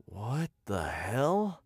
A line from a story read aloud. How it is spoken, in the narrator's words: I muttered, staring in bewilderment